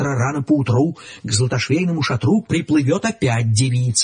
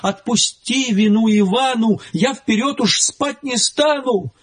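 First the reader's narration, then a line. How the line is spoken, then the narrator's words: Sobbing plea. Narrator (Russian): Иванушка заплакал и, рыдаючи, просил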